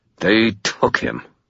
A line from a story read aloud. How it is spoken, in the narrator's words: I spat